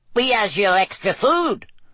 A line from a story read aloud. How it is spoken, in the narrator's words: squeaked an elf